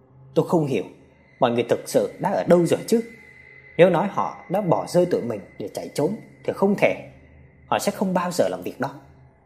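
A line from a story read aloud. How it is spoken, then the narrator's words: Tired, quiet. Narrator (Vietnamese): Mệt mỏi khẽ nói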